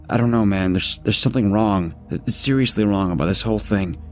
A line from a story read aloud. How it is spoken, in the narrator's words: Matt replied